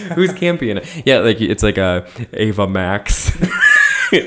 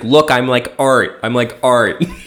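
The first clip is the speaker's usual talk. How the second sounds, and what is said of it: Imitates another person's voice. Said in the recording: “my Normani impression”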